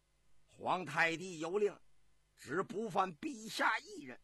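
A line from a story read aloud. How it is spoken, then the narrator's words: Roaring. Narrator (Chinese): 石朝吼道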